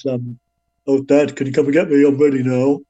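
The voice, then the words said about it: Imitates another person's voice. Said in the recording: “Not a very good impression.”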